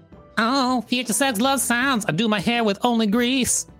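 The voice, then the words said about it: Imitates another person's voice. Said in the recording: “That's my impression of Justin Timberlake.”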